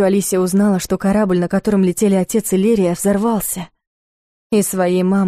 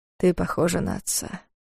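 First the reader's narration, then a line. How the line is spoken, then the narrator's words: Quiet, tender. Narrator (Russian): тихо сказал Дарс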